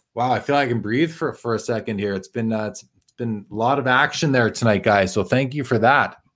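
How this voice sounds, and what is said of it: Hoarse, tired-sounding voice. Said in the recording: “I'm losing my voice, man... I'm getting tired.”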